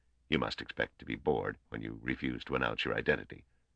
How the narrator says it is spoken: he said in a low voice

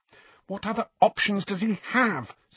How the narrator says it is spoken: said Hermione bitterly

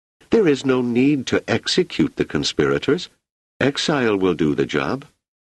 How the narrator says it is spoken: she exclaimed

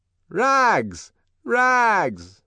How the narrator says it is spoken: the boys used to shout at him

